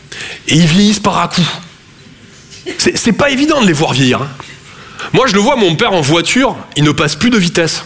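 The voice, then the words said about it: Slight Toulouse French accent. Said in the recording (French): “Je viens de Toulouse à la base. Ouais, ça s'entend un peu.”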